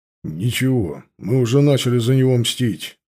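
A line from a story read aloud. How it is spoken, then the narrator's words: Grim. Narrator (Russian): сказал Тивадар мрачно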